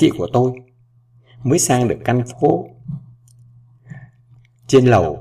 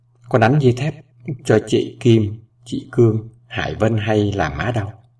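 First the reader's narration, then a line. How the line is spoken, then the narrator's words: Hoarse, weak mother. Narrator (Vietnamese): Má tôi nói giọng khàn khàn yếu ớt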